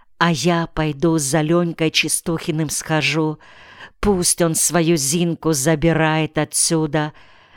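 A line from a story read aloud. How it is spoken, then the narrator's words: Whisper. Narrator (Russian): шепотом сказала Алена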